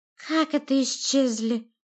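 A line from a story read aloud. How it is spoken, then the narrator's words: Lisping, surprised or excited. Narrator (Russian): зашепелявил Грегги, то ли удивленно, то ли взбудораженно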